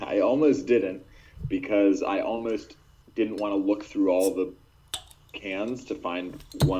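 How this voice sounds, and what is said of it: Usual voice. Nothing is said of it.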